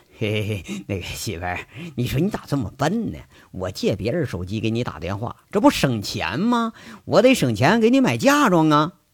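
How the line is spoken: Chuckling. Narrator (Chinese): 那杨伟嘿嘿直笑，就说了

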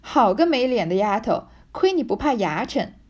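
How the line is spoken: Hearty laughter. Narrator (Chinese): 山石背后哈哈的笑道

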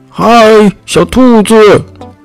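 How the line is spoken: Calling from outside. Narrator (Chinese): 有人在门外喊

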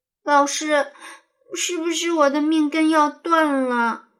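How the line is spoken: Tearful, distressed question. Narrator (Chinese): 牛牛哭丧着脸问

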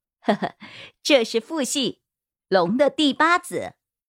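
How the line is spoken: Laughing. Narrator (Chinese): 莎莎笑道

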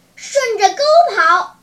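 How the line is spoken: Shouting. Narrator (Chinese): 叫道

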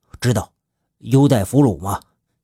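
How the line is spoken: Stern sharp question. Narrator (Chinese): 刘奎厉声的问道

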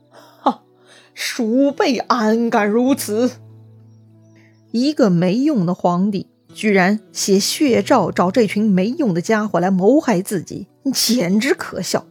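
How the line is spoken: Mocking laugh. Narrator (Chinese): 曹操……笑了

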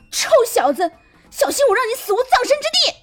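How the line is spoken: Wild shouting. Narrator (Chinese): 狂叫道

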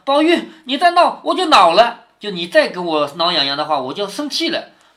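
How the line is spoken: Breathless laughter. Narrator (Chinese): 便笑得喘不过气来，口里说道

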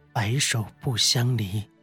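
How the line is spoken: Soft-spoken. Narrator (Chinese): 袁弘 轻声道

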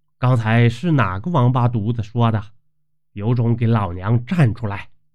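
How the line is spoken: Stern angry shout. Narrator (Chinese): 老地主媳妇儿……厉声说道

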